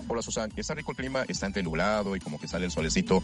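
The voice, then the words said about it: Deep radio announcer voice. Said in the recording (Spanish): “tiene voz de locutor. No le digan, pero tiene voz de locutor”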